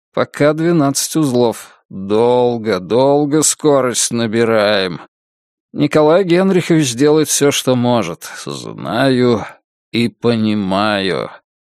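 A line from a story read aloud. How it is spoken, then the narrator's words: Slow speech. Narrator (Russian): медленно произнес Руднев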